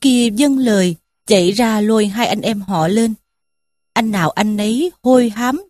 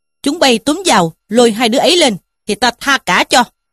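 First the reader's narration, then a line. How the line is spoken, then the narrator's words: Shouted. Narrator (Vietnamese): Trí Thâm quát lũ kia mà bảo rằng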